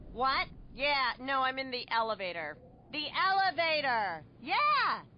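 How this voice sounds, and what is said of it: Loud phone caller in elevator. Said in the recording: “my impression of a person having a phone conversation in the elevator”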